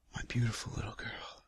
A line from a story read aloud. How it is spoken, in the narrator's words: I whisper